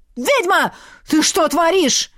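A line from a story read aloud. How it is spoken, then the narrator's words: Yelling elf. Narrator (Russian): завопил эльф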